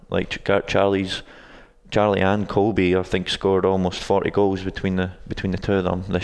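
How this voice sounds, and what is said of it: Non-local foreign accent. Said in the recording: “you're not from around here ... I don't think your accent is a South Ankeny accent.”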